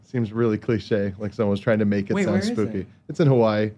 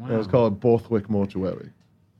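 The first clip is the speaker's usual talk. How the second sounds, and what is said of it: Put-on English accent. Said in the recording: “Is that you doing an English accent”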